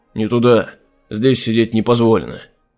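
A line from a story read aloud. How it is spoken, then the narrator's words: Sudden angry bark. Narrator (Russian): Вдруг рявкнул Джонатан, метнув на нее гневный взгляд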